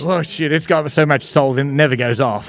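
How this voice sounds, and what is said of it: Australian accent. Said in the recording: “you still have your accent, I'm sure you'll have it the rest of your life ... mate ... bloody ... fair dinkum”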